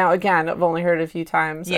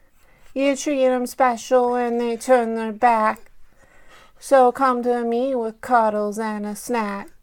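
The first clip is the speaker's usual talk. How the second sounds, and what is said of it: Singing in a baby voice. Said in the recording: “I'm not the best singer, so I'm going to do it in a baby voice instead... let's see if I can baby voice.”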